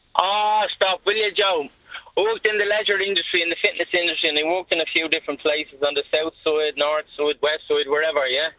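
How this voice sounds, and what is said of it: Strong Dublin accent. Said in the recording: “my Dublin accent. It's very strong”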